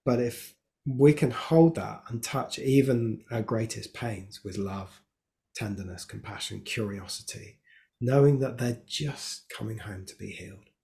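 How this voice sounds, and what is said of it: Emotional, moved voice. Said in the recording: “you can probably hear it in my voice. I get very emotional at this”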